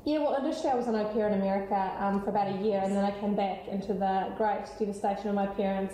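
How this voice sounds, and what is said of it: New Zealand accent. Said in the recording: “you've got this beautiful Kiwi accent ... you've cultivated a really good international accent”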